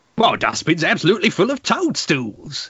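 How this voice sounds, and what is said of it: Put-on Cockney accent. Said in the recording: “let me do a Cockney accent ... Gonna do a Cockney one.”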